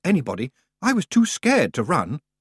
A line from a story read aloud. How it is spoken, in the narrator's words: Roland muttered